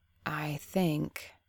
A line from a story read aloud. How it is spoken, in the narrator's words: she began slowly